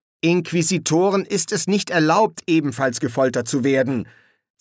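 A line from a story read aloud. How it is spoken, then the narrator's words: Stern yet disappointed. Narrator (German): sagte der oberste Inquisitor streng, aber es klang irgendwie enttäuscht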